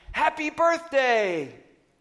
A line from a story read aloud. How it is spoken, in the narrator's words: we all screamed